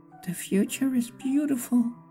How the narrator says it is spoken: he whispered

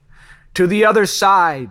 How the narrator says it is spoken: he yelled as loud as he could between breaths

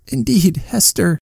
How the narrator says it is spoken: sobbed out my child

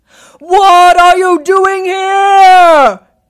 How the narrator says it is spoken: he cried in a very gruff voice

